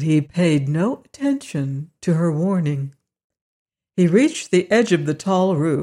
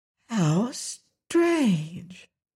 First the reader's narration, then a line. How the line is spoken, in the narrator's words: she exclaimed, drawing a long breath